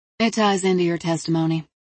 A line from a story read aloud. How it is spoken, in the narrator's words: Lyon said smoothly